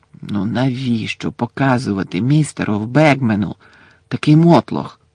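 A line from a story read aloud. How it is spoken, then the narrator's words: Hissed. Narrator (Ukrainian): засичав Персі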